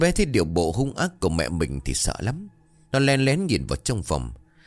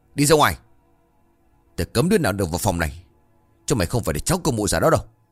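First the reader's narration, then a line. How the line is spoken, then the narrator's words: Sharp shout. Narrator (Vietnamese): Hương bấy giờ lại quát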